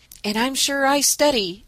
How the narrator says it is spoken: added Dan, nodding with a groan

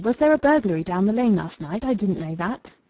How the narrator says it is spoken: exclaimed Lily

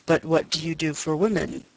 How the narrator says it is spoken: said Edmund gravely

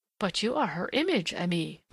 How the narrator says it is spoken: murmured the Frenchwoman

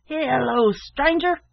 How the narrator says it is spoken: shouted a voice from within

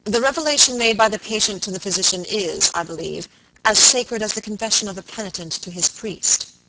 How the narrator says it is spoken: Robert asked gravely

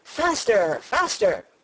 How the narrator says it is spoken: still the Queen cried

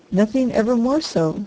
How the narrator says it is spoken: said the harvester

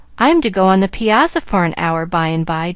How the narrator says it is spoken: Doctor said

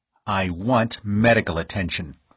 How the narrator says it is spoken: snapped the other

